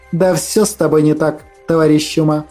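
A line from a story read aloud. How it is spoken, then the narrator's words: Good-natured snort. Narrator (Russian): добродушно фыркнула мамаша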